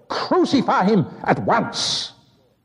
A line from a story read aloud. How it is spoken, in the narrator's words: they cried out with an indescribable uproar